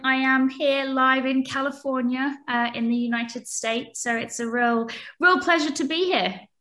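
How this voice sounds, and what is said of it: British accent. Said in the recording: “despite the British accent”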